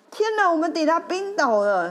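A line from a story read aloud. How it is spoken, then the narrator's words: Excited shout. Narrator (Chinese): 我那时候有这样大叫，因为实在是太兴奋了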